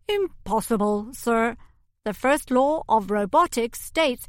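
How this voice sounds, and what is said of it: Hollow robotic voice. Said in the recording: “in a hollow human voice”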